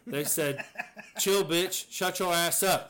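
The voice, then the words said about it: Put-on Black American accent. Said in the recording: “You like that little accent there? ... you put a little ... Because it was black guys”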